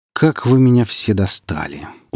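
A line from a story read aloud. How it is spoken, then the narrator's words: Weary. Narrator (Russian): устало вымолвил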